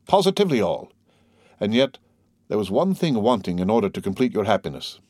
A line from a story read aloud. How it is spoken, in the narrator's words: said the major, hastily swallowing his biscuit